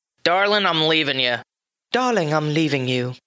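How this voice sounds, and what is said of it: Put-on British accent. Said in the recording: “everything sounds better with a British accent.”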